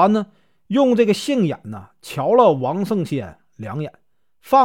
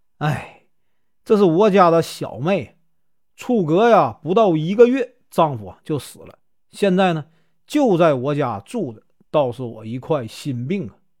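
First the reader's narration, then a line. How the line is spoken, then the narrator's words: Deliberate sigh. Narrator (Chinese): 田国本故意叹了一声，说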